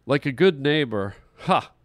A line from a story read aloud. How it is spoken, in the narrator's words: he laughed to himself